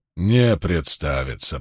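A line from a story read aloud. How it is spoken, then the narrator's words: Grumbled. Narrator (Russian): проворчал Спартак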